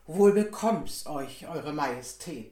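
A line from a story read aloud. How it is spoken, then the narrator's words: Plain. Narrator (German): sagte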